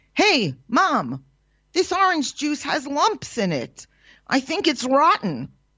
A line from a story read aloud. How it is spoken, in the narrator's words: shouts a disobedient child